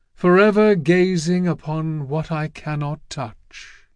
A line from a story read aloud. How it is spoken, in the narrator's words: he sighed